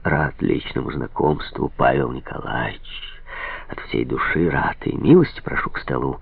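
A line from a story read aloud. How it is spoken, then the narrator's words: Warm cooing. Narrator (Russian): заворковал Трепов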